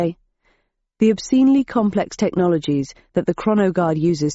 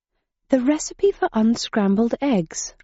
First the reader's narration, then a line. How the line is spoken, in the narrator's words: I murmured, suddenly remembering